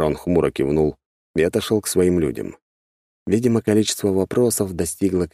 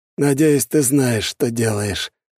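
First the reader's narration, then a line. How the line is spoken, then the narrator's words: Sighing. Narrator (Russian): вздохнул Белый Волк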